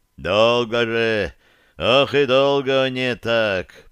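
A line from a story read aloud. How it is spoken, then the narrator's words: Deep bass, big man. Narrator (Russian): пробасил здоровый человек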